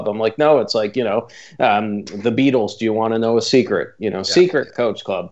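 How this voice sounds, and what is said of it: Canadian accent. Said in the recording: “darn Canadian accent ... I can tell by your accent.”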